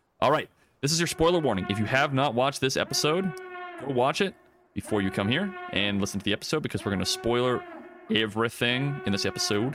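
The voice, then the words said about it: Speaks in an odd put-on accent. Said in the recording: “I don't know what I'm doing with my accent here”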